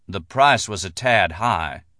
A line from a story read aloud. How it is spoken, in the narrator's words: Barnwell said, his voice ironic and detached